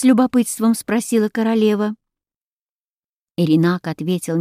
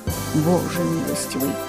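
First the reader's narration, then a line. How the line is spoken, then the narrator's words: Whisper, king. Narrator (Russian): прошептал король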